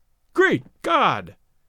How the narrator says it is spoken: they heard him exclaim

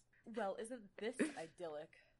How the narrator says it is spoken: Alex muttered

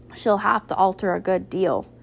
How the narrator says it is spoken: answered Mrs

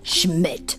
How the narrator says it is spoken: Captain America growled

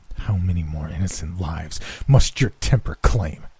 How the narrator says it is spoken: I asked in a scornful voice

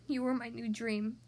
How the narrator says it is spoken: murmured

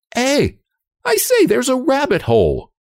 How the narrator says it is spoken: cried Anne suddenly

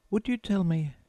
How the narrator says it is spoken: said Alice, a little timidly

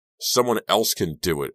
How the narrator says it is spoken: I yelled back over my shoulder

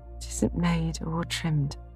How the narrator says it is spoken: sighed Meg, faintly, for a sudden recollection of the cost still to be incurred quite overwhelmed her

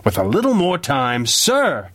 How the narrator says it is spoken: Parker had raised his voice in protest

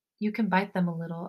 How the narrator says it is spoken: I whisper

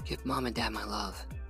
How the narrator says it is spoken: she whispered

